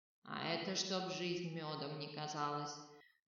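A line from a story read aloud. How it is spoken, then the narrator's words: Pleased chuckle. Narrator (Russian): довольно хохотнул посох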